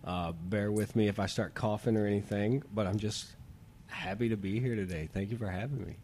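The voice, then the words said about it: Sick, not-quite-normal voice. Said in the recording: “excuse my voice. I've been sick for a while now. I think I actually have mono, so I'm not sounding exactly like myself.”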